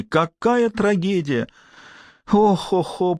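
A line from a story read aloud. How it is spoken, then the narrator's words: Moaning rat. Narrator (Russian): простонала крыса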